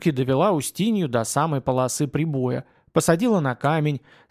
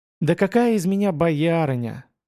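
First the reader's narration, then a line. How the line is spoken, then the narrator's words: Heavy sigh. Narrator (Russian): тяжело вздохнула казачка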